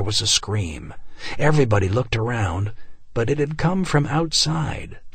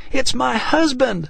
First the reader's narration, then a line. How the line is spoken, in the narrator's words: she screamed